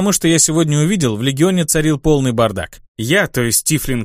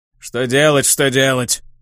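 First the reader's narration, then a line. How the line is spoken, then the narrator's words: Demon's grumble. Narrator (Russian): проворчал демон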